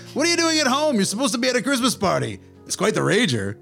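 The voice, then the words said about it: Put-on accent for Loki. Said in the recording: “I didn't do an accent before.”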